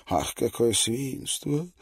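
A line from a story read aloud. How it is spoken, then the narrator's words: Sleepy voice. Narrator (Russian): сказал сонным голосом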